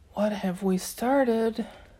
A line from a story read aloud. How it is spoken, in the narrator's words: Sadie murmured